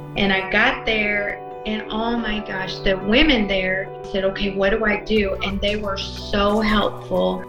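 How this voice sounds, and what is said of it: Texas accent. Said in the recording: “they saw that I was from Texas. They liked my accent.”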